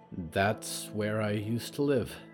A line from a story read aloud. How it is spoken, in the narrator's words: Percy whispered